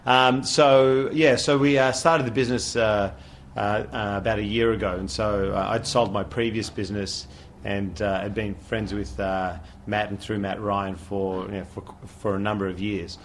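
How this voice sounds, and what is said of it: Australian accent. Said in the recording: “the accent ... I'm Australian, so don't adjust your speakers”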